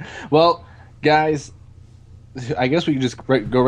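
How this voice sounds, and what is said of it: Usual voice. Nothing is said of it.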